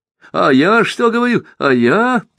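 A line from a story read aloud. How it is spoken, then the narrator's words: Triumphant shout, king. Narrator (Russian): торжествующе закричал король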